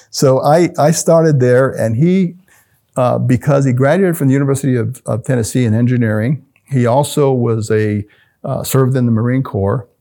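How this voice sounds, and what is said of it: Slight Southern drawl. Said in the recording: “they had the Southern accent. So if you hear a little Southern drawing me”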